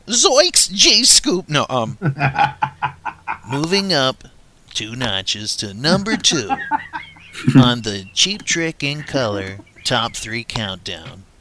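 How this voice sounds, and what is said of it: Imitates another person's voice. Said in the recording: “my Casey Kasem imitation”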